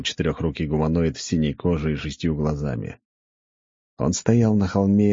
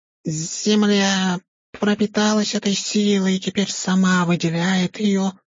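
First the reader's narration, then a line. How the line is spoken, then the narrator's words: Squeaky creature voice. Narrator (Russian): пропищало существо, похожее на тушканчика, только крупнее и с крыльями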